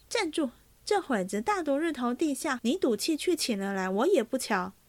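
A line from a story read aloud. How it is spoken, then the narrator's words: Calling out. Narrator (Chinese): 灵官又叫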